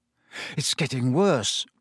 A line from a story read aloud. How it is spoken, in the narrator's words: Harry muttered